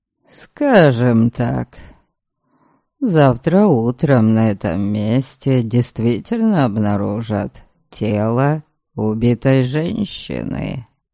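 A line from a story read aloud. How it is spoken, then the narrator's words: Calm. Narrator (Russian): спокойно проговорил Норберг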